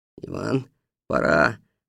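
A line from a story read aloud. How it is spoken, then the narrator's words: Quiet. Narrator (Russian): негромко сказал Бобриков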